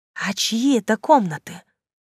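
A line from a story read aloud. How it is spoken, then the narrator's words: Hiss, horrified and thrilled. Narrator (Russian): прошипел Гарольд, в глазах которого примерно в равных пропорциях смешались ужас и восторг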